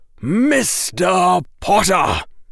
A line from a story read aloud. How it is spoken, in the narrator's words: barked Professor Quirrell